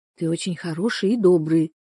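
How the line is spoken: Whisper. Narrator (Russian): шепнула она ему

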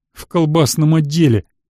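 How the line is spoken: Nervous laugh. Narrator (Russian): нервно засмеялся

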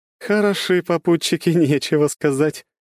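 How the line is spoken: Laughing. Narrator (Russian): рассмеялась Круанна

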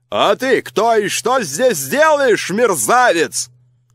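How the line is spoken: Fat cook shouting. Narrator (Russian): закричала толстая кухарка

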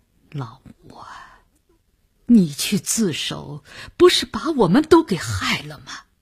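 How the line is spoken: Near tears, resentful. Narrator (Chinese): 郑百祥几乎也要哭出来了，他的语言已经注入了怨恨

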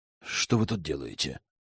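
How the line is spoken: Spiteful, through teeth. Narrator (Russian): процедил злобно

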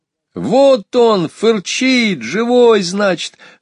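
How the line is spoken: Girl shouting joyfully. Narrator (Russian): радостно закричала девочка

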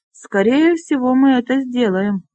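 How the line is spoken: Gloomy. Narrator (Russian): мрачно произнес Трон

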